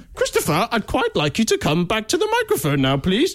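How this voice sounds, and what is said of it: Posh lion character voice. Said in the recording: “doing an impression of a rather posh lion ... I don't know why I've now got this accent”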